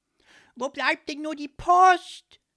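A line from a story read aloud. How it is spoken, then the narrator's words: Deafening shout. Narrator (German): schrie Leopold so ohrenbetäubend laut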